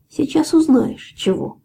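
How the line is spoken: Almost calm reply. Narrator (Russian): почти спокойно ответил Рыжебородый

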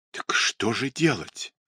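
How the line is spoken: Desperate whisper. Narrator (Russian): с отчаянным шепотом произнесла баронесса

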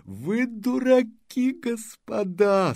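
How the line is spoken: Moaning. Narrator (Russian): стонал он

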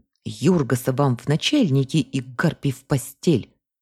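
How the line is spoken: Hiss. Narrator (Russian): прошипела

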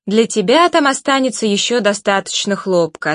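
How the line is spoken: Plain. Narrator (Russian): ответила она

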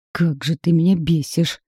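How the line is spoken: Growled. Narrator (Russian): прорычал

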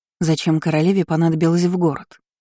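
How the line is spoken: Plain. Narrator (Russian): спросила

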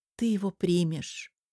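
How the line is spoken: Sad. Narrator (Russian): грустно сказала Алола

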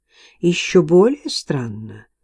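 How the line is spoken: Thoughtful. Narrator (Russian): задумчиво изрек Кейтсби

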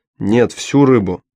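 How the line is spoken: Sharp. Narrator (Russian): резко сказал Мао

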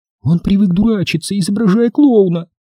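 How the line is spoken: Sudden ringing childlike voice. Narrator (Russian): внезапно заговорила Тони по-детски звонким голосом

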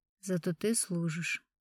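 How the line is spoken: Quiet. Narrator (Russian): негромко сказал Суворин

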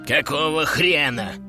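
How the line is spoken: Hiss. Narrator (Russian): прошипел он

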